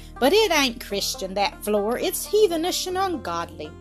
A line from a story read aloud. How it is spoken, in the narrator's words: exclaimed Maria Sharp